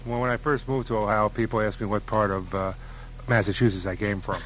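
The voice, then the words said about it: Bronx New York accent. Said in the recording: “You have a Bronx accent. This is not a Columbus, Ohio accent”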